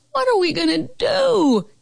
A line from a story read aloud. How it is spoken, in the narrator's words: Carol Costa howled